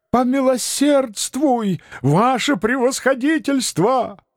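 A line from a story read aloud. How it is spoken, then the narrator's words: Crowd wailing. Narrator (Russian): вопило трудовое крестьянство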